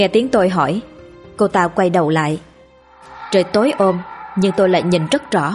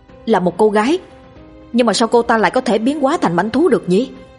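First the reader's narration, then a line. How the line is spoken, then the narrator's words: Shouted loudly in surprise. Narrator (Vietnamese): Tôi thấy lạ, hét lớn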